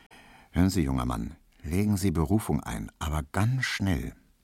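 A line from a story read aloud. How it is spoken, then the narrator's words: Very quiet aside. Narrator (German): sagte im Vorbeigehen so ganz leise zu ihm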